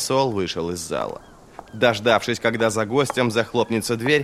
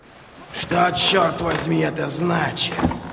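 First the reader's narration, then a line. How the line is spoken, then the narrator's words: Growling. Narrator (Russian): прорычал он Висбруку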